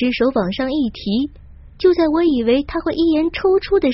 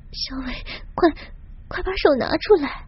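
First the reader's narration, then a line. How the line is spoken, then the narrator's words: Embarrassed whispered pleading. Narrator (Chinese): 我一下子满面红晕，连忙小声哀求着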